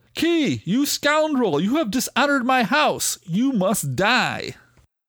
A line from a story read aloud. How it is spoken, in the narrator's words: Sickles yelled